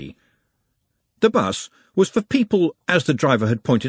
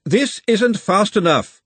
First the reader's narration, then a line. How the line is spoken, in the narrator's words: Glenda shouted